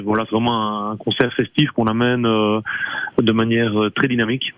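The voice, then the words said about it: Slight Belgian accent. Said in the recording (French): “vous avez un petit accent belge”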